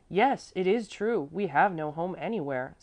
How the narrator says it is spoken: Salo exclaimed passionately

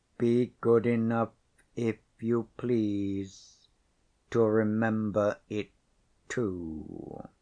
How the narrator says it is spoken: the Count's steady voice quietly repeated

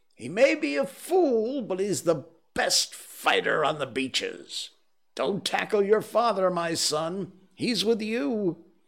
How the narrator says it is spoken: gave a roar and shouted

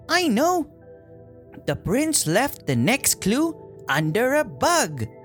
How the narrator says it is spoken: The dwarf Sneezy cried

